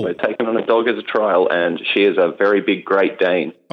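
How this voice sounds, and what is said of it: Australian accent. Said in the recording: “beautiful accent, he's from the land of Oz. He's from Australia.”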